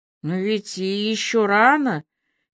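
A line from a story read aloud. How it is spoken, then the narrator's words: Uncertain remark. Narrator (Russian): неуверенно заметила Аля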